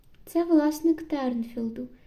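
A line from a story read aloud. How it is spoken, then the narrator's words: Calm answer. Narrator (Ukrainian): спокійно відповіла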